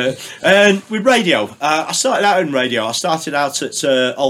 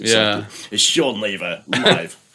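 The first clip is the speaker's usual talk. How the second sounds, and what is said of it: Put-on radio DJ voice. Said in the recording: “I've got serious radio voice.”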